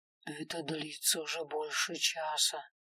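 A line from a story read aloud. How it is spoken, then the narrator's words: Whispered. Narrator (Russian): прошептал Милор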